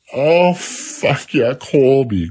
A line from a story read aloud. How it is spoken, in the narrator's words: groaned Joey